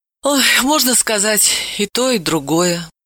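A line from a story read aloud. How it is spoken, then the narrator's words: Sighed. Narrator (Russian): вздохнула Левицкая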